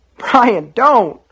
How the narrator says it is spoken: Sean cried, beginning to weep

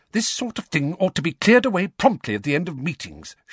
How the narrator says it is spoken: she snapped

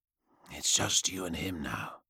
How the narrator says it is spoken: Ionis whispered

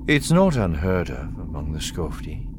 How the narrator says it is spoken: the pilot said calmly

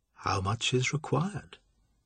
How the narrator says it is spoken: York asked quietly

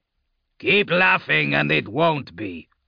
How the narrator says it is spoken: Redmore growled

